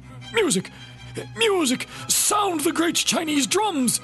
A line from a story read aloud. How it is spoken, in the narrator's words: he cried